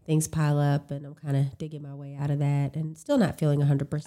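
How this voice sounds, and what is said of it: Nasal, congested voice. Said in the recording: “I'm getting over a cold ... I'm sure you can hear it in my voice ... i do hear it in your nasal ... nasal right yeah oh it's there”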